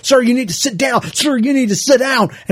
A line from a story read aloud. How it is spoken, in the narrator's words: She just starts yelling and saying